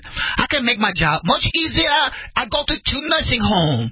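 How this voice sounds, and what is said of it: Mock Chinese accent. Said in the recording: “let me do it in a Chinese accent, in an Asian accent.”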